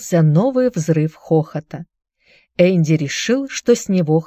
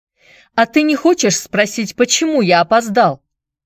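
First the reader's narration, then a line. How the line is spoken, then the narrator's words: Shouted. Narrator (Russian): закричал Энди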